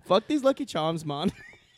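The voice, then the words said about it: Deliberately bad Irish accent. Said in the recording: “I was going to try to do an Irish accent, but I feel I would have butchered it... It's going to come out Jamaican or some shit... That wasn't Irish... So far off.”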